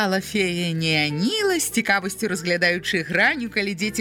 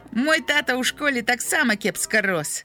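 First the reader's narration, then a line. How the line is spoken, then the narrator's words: Grumbling. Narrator (Belarusian): буркнуў Граня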